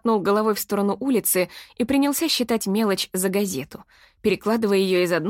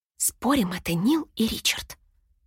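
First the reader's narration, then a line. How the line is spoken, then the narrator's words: Whisper. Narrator (Russian): прошептала я Шерон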